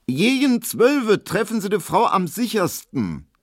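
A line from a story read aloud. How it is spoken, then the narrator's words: Loud, meant to be overheard. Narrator (German): sie sagte so laut, dass es Emil Kubinke hören musste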